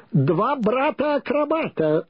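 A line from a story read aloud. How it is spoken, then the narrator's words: Booming shout. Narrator (Russian): зычно закричал он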